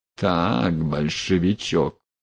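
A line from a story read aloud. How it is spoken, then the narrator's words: Through gritted teeth. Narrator (Russian): цедил сквозь зубы Потылицын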